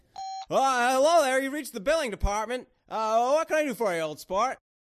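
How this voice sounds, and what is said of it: Imitates another person's voice. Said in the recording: “my Jimmy Stewart impression”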